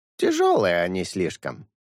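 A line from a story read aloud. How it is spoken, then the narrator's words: Crane, with a snort. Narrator (Russian): хмыкнув, ответил журавль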